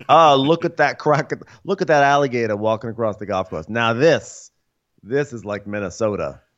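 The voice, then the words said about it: Put-on Northeastern American accent. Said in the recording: “I'm still doing a Northeastern accent for his Minnesota accent ... this strange Northeastern thing”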